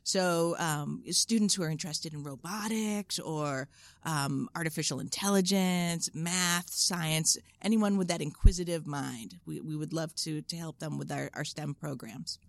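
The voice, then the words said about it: Boston accent. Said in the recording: “It's that Boston accent mixed ... with the military”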